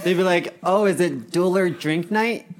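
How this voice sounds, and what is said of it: Exaggerated put-on Canadian accent. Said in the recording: “Why do you sound like a gay Canadian?”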